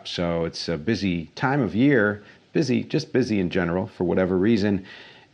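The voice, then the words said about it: Tired-sounding voice. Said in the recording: “As you can hear, my voice is a little tired”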